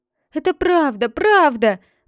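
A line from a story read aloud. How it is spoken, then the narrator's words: Crying out in tears. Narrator (Russian): выкрикнул Пиноккио сквозь слезы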